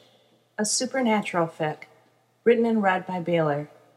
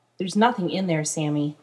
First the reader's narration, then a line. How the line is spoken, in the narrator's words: Dean says